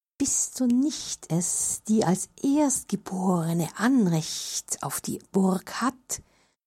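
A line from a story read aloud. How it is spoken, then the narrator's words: Insinuating whisper, several voices. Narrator (German): flüsterten sie der Tochter ein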